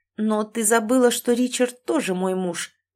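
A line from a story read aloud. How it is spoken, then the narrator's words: Horrified words through gritted teeth. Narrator (Russian): процедила я сквозь зубы, ужасаясь своим словам и той ситуации, в которую я умудрилась вляпаться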